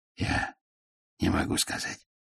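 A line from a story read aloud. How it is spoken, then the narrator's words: Gnome whispering. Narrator (Russian): прошептал гном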